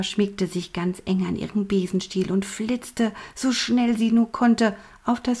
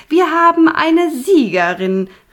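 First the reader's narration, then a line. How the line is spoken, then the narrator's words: Head witch calling out. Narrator (German): rief Punica Granata, die Oberhexe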